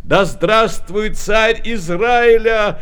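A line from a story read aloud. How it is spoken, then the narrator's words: Joyful crowd shouting. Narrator (Russian): радостно кричали они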